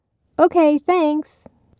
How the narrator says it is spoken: Hillary added brightly

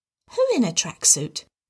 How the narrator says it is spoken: Tim asked quietly

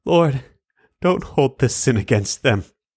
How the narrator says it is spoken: cried with a loud voice

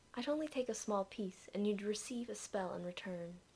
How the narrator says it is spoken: explained in a reasonable tone

